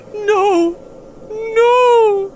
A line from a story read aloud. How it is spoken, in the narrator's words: whimpered